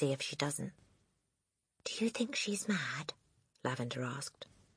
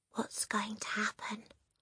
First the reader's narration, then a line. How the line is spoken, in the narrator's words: Lavender whispered